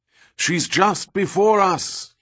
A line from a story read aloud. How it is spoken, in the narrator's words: shouted